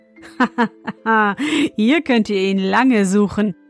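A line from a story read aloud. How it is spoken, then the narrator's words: Laughing. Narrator (German): lachte er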